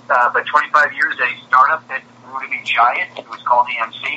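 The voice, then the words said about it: American East Coast accent. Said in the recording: “I come from the East Coast. Sorry about the accent”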